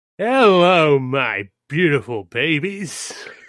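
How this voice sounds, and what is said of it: Slow, twangy Australian-sounding accent. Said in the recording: “slow Australian L today ... It felt twangy ... I went off the twang ... Crocodile Dundee-esque”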